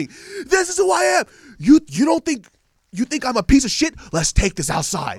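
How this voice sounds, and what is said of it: Screaming angrily. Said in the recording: “that's what he's screaming.”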